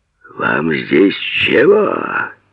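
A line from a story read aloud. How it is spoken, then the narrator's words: Sudden distant roar. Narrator (Russian): вдруг со двора взревело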